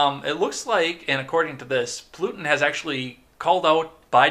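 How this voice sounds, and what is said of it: Usual voice. Nothing is said of it.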